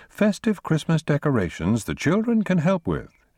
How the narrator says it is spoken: she declared brightly

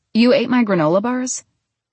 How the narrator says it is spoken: He laughed

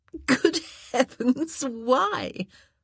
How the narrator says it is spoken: She laughed again, a rich, throaty sound

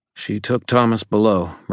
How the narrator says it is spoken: Murphy said, her voice tense

